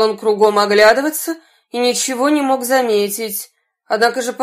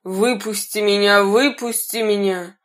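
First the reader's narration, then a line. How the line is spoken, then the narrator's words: Muffled voice. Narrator (Russian): кто-то говорил глухим голосом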